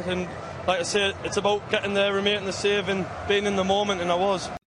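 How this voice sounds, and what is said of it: Broad northeast English accent. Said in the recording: “From Sunderland ... He's from the northeast. He's got a broad accent”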